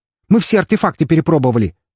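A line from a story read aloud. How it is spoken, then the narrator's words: Exclaiming. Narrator (Russian): воскликнул реаниматолог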